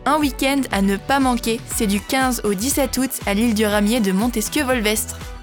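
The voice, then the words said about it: Noticeable regional French accent. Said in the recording (French): “Quel bel accent”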